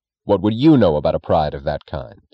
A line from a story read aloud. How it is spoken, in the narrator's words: Reardon asked sharply, as if the contempt of the second question could erase the confidence of the first